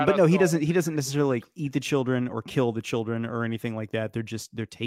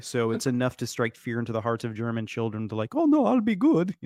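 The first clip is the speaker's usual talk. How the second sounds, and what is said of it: Good put-on German accent. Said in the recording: “That was a great German accent.”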